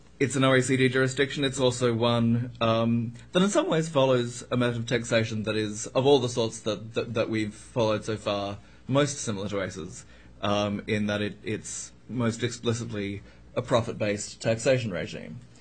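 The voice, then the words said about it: Australian accent. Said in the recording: “you may be able to tell from my accent that I happen to have grown up there ... Australia”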